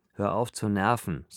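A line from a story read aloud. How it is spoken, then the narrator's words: Plain. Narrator (German): sagte Viktor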